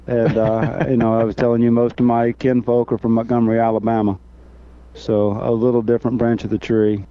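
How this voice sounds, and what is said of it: Slight Southern drawl. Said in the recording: “I can hear that drawl in there now a little bit”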